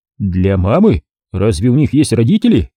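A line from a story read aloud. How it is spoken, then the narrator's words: Laughing. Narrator (Russian): Луиза засмеялась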